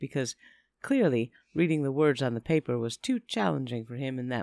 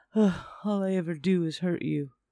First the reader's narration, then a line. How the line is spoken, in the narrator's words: He sighed heavily and said